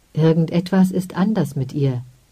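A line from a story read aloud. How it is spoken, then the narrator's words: Plain. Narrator (German): sagte er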